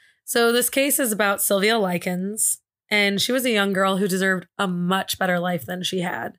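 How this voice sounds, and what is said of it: Usual voice. Nothing is said of it.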